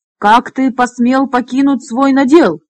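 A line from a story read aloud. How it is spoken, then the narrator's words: Angry bark. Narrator (Russian): рявкнул он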